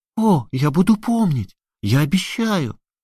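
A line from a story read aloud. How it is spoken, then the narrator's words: Exclaimed. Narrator (Russian): воскликнула маленькая душа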